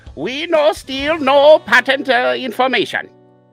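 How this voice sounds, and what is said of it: Poor put-on Chinese accent. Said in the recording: “Chinese voice ... That was bad”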